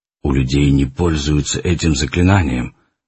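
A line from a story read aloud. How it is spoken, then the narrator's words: Muffled, from behind. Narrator (Russian): глухо сказал за ее спиной Арман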